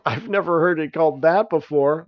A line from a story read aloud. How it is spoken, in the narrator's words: laughed Ops